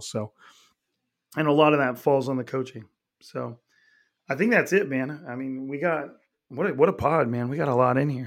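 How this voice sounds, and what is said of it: Raspy, hoarse voice. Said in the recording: “my shitty ass voice ... my raspy ass”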